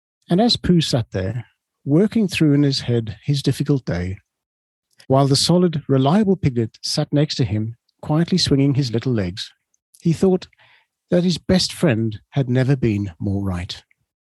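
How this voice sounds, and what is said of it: Smooth radio DJ reading voice. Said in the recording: “I love the way you read it. I do think you have a beautiful DJ voice”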